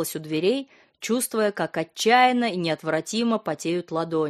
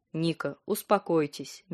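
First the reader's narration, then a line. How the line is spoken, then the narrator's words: Gentle speech. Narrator (Russian): мягко произнес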